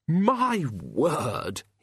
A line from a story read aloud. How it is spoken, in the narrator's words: he exclaimed